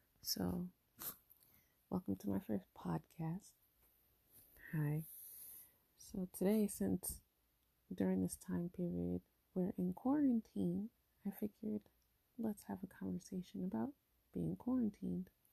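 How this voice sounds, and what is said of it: Quiet, hushed speaking voice. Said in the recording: “My voice is a little low because my kids are sleeping and I don't want to wake them up.”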